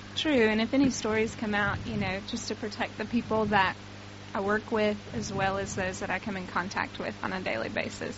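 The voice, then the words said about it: Southern American accent. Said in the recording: “we can tell by your accent that you're an American ... I'm actually from the South, so good old Tennessee”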